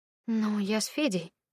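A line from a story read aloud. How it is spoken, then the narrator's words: Hesitant. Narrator (Russian): неуверенно начала я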